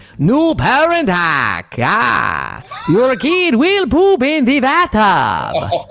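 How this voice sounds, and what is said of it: Put-on vampire accent. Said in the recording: “You have to read that in a vampire accent ... It's already terrible ... That was a vampire.”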